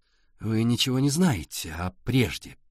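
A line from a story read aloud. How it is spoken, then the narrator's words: Through clenched teeth. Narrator (Russian): процедила Сашка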